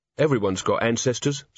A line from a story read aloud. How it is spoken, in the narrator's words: said the barman calmly